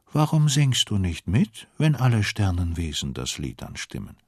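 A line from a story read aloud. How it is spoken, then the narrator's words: Calm question. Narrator (German): Mit ruhiger Stimme fragt sie den Affen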